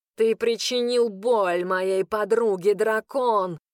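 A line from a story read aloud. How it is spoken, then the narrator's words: Growled. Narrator (Russian): рыкнул он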